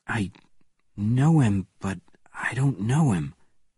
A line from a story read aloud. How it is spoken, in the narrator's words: replied Bourne quietly